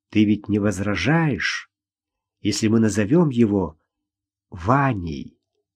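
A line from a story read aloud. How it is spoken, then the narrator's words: Quiet. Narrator (Russian): тихо сказал он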